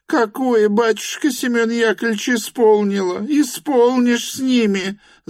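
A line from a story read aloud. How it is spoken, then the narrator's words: Wailing yell. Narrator (Russian): завопила вдова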